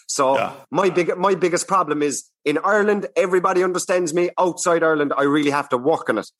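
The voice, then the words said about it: Strong regional Irish accent, spoken slowly. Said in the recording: “my people from where I'm from have this accent. And it's very hard to understand universally, you know, like this is me talking very slow now”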